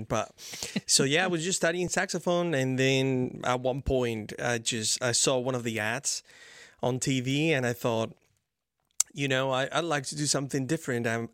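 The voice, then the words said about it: Spanish accent. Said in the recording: “I'm from Spain. Everyone can hear the accent.”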